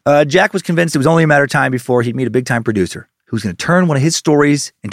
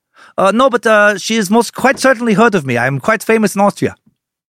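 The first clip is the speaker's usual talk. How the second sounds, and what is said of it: Put-on German or Russian accent. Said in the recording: “I don't know what accent that was. That was maybe German, maybe Russian.”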